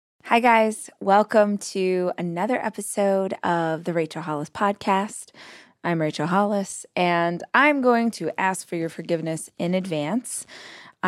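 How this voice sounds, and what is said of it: Scratchy, tired voice. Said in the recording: “my voice sounds a little scratchy and a little tired”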